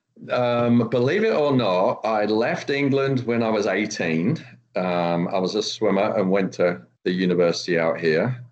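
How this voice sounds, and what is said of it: British accent. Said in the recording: “I can recognise a British accent when I hear one.”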